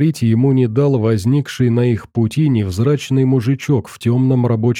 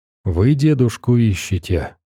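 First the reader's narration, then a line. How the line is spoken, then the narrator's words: Quiet question. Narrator (Russian): тихо спросил он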